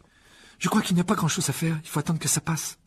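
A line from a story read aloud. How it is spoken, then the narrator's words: Worried tone. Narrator (French): dit Hermione d'un ton inquiet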